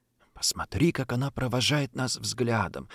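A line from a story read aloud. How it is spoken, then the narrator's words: Tremulous whisper. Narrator (Russian): слышу я трепетный шепот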